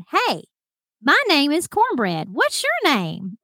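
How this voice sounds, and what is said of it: Thick country accent imitation. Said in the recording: “a guy with an absolute thick country accent”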